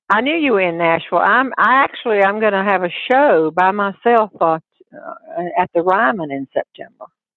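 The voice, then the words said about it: Southern US accent. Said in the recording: “I wasn't born here, but I was brought up here ... if you're from Tennessee and Kentucky, you will not need an interpreter for my accent at all”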